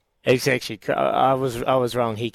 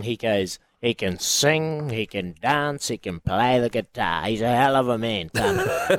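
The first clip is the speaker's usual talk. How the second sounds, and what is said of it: Imitates another person's voice. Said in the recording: “That's a good Ted impersonation”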